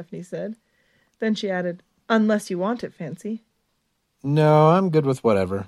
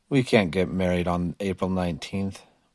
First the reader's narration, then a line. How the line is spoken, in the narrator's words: he grumbled